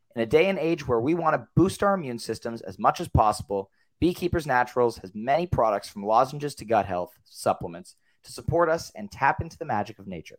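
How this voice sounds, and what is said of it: Strained, worn-out voice. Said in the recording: “you can tell my voice is a little bit shot”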